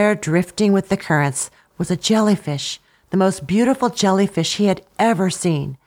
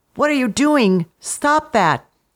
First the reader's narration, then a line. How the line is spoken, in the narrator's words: Sputtering, he managed to exclaim